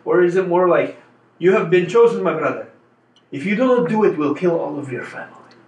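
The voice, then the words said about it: Put-on foreign accent. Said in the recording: “I don't know if I'm doing the accent correctly”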